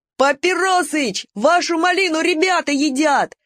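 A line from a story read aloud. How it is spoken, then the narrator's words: Deafening shout from afar. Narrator (Russian): крикнет из сарая Славка своим оглушительным голосом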